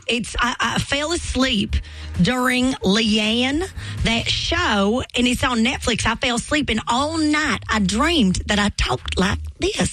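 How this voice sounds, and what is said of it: Put-on Southern American accent. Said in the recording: “new Southern accent ... my inner thoughts have become Southern”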